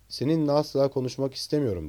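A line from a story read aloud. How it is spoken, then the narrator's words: Plain. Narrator (Turkish): dedi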